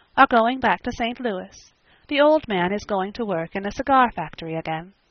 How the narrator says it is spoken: she said calmly

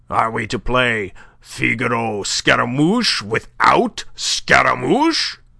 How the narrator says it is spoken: asked Binet, sneering

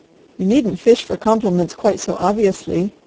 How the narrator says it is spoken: he answered

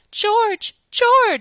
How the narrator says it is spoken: she cried when she could speak

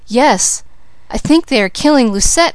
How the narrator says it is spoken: exclaimed the maid

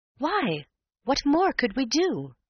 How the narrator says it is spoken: I exclaimed in soft derision

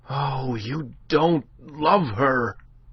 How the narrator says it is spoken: cried the other passionately

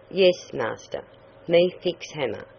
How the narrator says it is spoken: Cuckoo answered

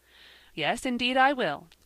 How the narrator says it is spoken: cried Ben

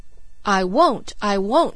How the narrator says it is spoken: she cried

